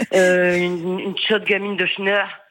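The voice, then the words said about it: Northern French regional accent. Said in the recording (French): “Je le fais avec l'accent, parce que moi aussi je suis du Nord.”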